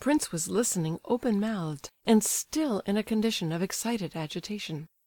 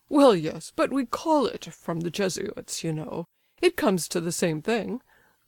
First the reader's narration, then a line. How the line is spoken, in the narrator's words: laughed the old fellow, delighted with the pleasant recollection